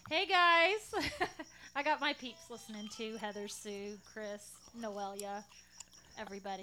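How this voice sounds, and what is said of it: Southern Texas drawl. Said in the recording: “I love ... drawl ... Southern twang ... you're from Texas ... I love to hear your accent”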